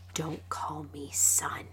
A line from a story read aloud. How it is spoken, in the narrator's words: Adolin hissed